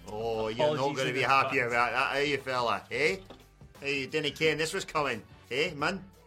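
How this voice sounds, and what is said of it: Put-on Scottish accent. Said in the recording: “do the news in a Scottish accent”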